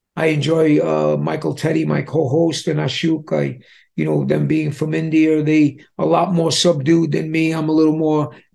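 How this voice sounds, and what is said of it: Distinctive regional accent. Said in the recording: “because of my accent, people say, "Hey, Street Talk,"”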